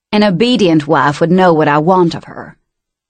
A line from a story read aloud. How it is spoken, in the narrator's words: to growl